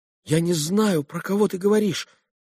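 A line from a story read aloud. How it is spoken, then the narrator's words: Frightened babbling. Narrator (Russian): пролепетал Алеша уже в испуге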